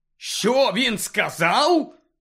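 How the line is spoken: Bark. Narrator (Ukrainian): гаркнув Сіріус

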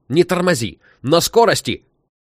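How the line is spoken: Shouting. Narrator (Russian): кричал Саша

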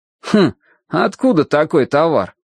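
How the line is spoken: Skeptical hum. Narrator (Russian): хмыкнул Спица

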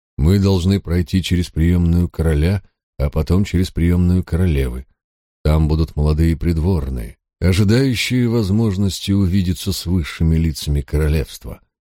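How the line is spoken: Tired explanation. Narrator (Russian): пояснил лорд Уильям устало

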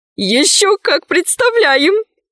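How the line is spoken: Laughing. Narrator (Russian): засмеялась Динара

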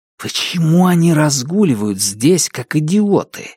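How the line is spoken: Hissing. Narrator (Russian): прошипел Дайн

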